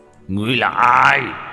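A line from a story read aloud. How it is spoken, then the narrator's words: Angry roar. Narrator (Vietnamese): Lâm Uyên Ma Long nổi giận, gầm lên một tiếng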